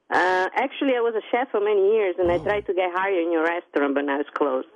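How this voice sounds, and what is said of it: Italian-sounding accent. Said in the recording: “I like your accent... What's your favorite Italian dish”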